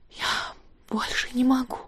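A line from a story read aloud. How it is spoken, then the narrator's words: Whispered. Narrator (Russian): шептала Элиза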